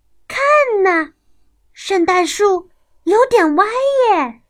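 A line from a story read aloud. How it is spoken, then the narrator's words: Children crying out. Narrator (Chinese): 孩子们立刻就叫了起来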